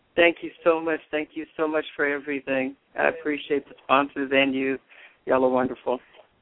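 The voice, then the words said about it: Texas accent. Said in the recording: “I can hear your Dallas, Texas accent.”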